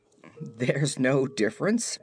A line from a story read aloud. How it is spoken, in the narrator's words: he replied, beginning to laugh again